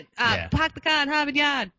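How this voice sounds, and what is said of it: Attempted Boston accent. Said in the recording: “do a Boston accent ... That sounds like Matt Damon and Ben Affleck trying to do a Boston accent.”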